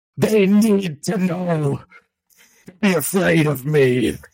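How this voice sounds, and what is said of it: Menacing villain character voice. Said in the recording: “do the Kingpin voice... read in the Kingpin voice”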